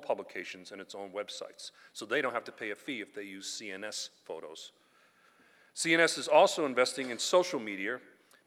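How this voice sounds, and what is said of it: Boston accent. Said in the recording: “excuse my Boston accent”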